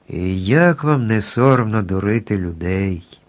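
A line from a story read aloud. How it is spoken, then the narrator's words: Plain. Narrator (Ukrainian): запитав страшило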